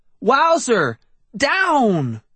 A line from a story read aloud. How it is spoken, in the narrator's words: I shouted